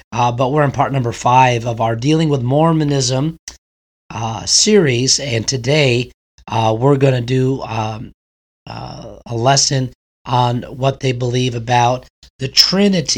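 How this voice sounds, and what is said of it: Strained, worn-out voice. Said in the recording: “apologize for my voice quality. Got a little bit of a weather change here in Texas, and so my voice isn't holding out best”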